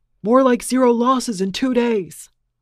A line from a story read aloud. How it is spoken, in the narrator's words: he screamed